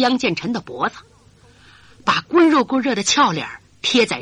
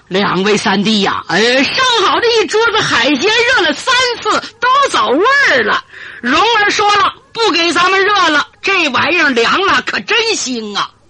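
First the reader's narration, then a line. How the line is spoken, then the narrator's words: Old voice shouting. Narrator (Chinese): 突然有个苍老声音喊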